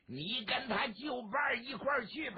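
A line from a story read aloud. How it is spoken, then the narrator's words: Shout. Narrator (Chinese): 索超喊了一嗓子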